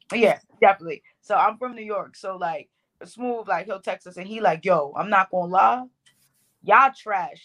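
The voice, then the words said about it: Bronx New York accent. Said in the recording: “If y'all don't hear all the Bronx in my accent ... well, yeah, we hear.”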